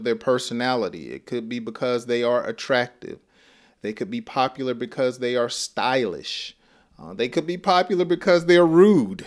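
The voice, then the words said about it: Southern US accent, slow speech. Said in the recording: “my accent. You know, I'm from the South. I'm from Georgia, and and we talk slow.”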